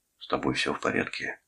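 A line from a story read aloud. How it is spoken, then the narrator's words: Whisper. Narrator (Russian): шепнул Дженнингс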